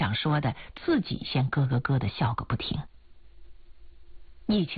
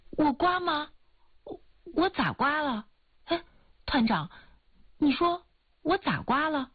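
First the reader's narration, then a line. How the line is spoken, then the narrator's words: Earnest pressing questions. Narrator (Chinese): 易清娥这样真诚的追问着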